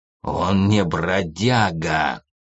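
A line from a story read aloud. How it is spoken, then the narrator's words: Growled. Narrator (Russian): зарычал Прэк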